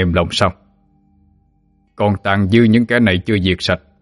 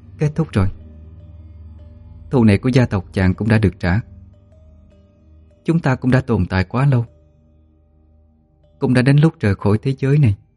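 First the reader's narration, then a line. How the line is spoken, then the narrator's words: Sighing speech. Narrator (Vietnamese): thở dài nói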